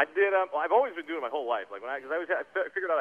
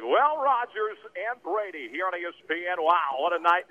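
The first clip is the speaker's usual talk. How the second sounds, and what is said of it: Sportscaster play-by-play voice. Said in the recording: “I had this weird voice that sounded just like Joe Buck ... Why do I sound like that? ... doing play-by-play”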